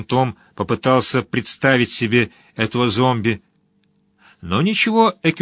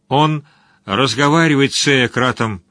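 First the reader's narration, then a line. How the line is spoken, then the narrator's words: Muffled, hollow voice. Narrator (Russian): продолжал чародей глухим голосом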